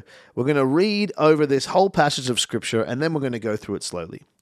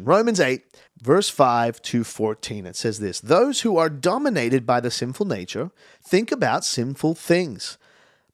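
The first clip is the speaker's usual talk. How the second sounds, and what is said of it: Audiobook narrator reading voice. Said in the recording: “my best audiobook impression.”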